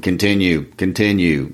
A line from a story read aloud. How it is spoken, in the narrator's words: in a monotone voice